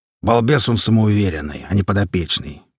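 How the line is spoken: Deep bass, big man. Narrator (Russian): пробасил здоровяк

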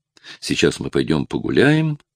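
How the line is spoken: Cheerful. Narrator (Russian): весело решила она

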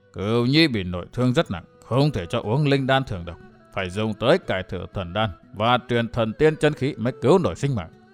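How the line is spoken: Muttering. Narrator (Vietnamese): Vạn Tà Thạch Thương Ngân lẩm bẩm

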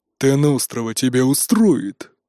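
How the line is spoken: Growling. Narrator (Russian): прорычал Нуки

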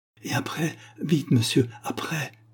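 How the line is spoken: Pleading. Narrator (French): supplia-t-elle

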